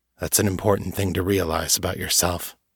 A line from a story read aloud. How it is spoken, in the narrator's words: he said gravely